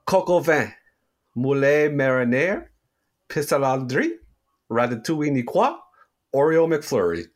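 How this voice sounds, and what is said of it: Put-on French accent. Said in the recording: “I was born in the French part of Canada ... listen to me read this list of French foods, and you'll hear how perfect my accent is”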